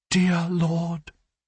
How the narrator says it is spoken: she begged

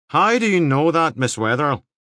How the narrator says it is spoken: Devlin said again, more sharply

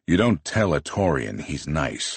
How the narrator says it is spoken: I grumble

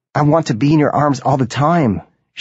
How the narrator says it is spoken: she yells

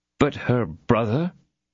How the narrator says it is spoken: timidly added D'Artagnan

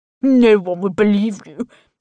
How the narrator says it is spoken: chuckles

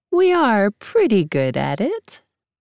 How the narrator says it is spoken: she says playfully

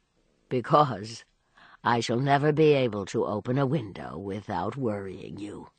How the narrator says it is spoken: he rejoined, laughing also

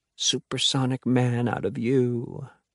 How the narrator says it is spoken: Alex mumbles low

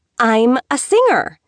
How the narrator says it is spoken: she exclaimed

